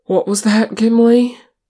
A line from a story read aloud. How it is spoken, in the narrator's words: Aragorn panted